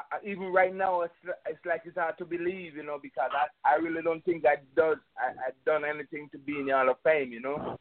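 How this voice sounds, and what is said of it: Jamaican accent. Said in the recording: “You're from over there in Jamaica, And as people can tell probably from your accent”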